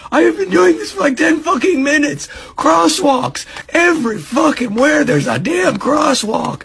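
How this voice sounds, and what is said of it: Strained, failing voice. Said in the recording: “I'm losing my voice right now.”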